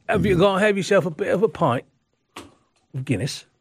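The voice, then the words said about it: English accent, failed Irish attempt. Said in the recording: “With an English accent, I couldn't get the Irish one out.”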